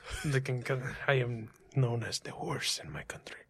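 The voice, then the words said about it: Put-on foreign accent, done well. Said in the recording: “you do the accent so well. It's amazing.”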